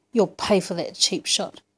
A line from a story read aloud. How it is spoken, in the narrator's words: snarled